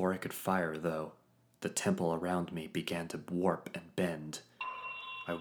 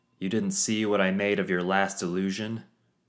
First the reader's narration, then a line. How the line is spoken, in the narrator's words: I called out